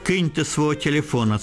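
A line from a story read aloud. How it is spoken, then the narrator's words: Plain. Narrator (Ukrainian): сказав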